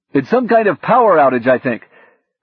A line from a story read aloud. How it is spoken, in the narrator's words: shouted from down the hall